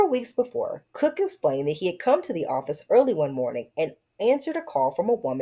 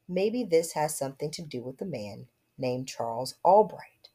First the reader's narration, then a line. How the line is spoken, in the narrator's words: after a pause, Cook said softly